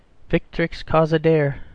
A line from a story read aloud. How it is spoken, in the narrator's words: said Michael gloomily